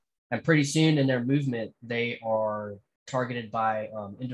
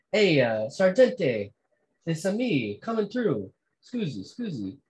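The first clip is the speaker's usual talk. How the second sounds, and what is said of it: Exaggerated bad Italian accent. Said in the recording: “his awful Italian accent”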